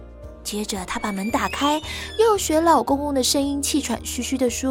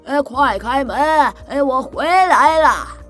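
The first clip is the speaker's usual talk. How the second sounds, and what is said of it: Loud booming old man voice. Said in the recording (Chinese): “装出老公公洪亮的声音说”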